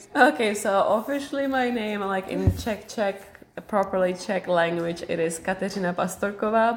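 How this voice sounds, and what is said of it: Speaks with a foreign accent. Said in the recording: “the beautiful accent that you have”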